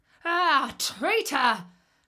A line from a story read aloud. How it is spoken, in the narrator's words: cried the wolf, howling with rage